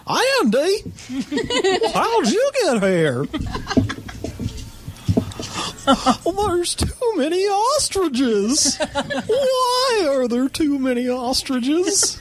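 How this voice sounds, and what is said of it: Don Knotts impression. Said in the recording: “do a Don Knotts impression”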